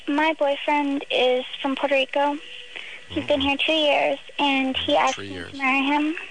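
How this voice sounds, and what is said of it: High-pitched baby-like voice. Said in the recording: “got someone with the baby voice.”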